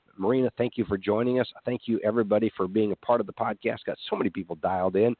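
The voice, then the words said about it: Congested voice from a head cold. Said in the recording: “Apologize for some of the head cold that I've got here. Obviously, my voice isn't normal”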